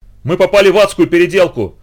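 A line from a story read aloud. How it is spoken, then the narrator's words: Terrified shout. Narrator (Russian): закричал астронавт в ужасе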